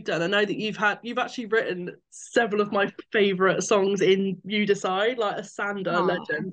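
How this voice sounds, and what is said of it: British accent. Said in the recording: “I'm from the UK, as you can tell from my accent”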